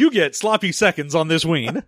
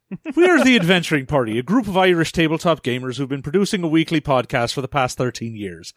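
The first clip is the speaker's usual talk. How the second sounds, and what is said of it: Put-on Irish accent. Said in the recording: “Probably much better than what I'm going to sound like when I do an Irish accent.”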